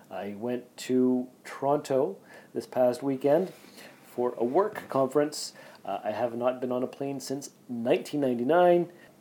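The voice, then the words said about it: Sick-sounding voice. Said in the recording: “my voice doesn't sound like it normally does... Do I sound super sexy or do I just sound sick?... You sound sick.”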